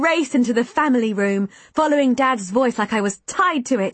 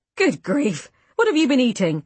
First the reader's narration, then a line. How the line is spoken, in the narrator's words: exclaimed